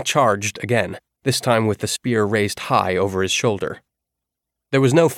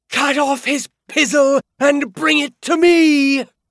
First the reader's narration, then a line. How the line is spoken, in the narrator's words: a woman, almost certainly Petra, scream